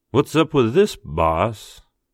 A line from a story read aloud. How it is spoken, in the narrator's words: Mitch drawled